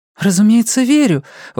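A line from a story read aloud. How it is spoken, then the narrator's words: Exclamation. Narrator (Russian): воскликнула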